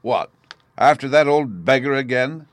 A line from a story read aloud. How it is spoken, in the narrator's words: the gardener yelled